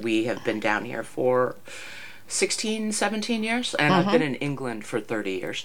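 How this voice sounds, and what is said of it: American accent. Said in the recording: “Despite the accent ... I was born in the States”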